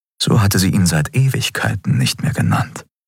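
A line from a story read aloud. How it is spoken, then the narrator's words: Amused murmur. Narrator (German): murmelte er amüsiert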